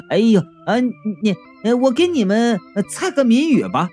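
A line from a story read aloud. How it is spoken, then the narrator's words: Hurried awkward laughing. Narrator (Chinese): 吴玉呀，察觉到了气氛的尴尬，连忙就笑着说道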